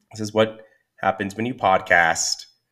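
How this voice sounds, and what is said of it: Sick, strained voice. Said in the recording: “I apologize for my voice. I'm a little under the weather right now ... your voice does weird things”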